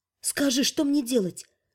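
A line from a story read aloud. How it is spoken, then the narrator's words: Whisper. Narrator (Russian): шепнула Скаю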